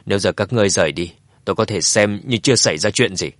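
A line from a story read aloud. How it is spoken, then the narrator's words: Cold. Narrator (Vietnamese): Dương Chấn lại nhíu mày lạnh lùng nói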